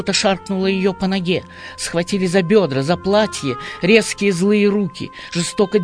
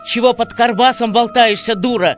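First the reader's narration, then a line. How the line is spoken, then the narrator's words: Happy yell in ear. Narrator (Russian): Счастливо заорал он ей в самое ухо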